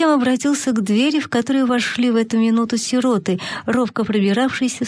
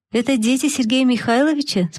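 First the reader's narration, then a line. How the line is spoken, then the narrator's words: Plain. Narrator (Russian): спросила сестра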